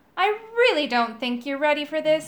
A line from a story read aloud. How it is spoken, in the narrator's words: he said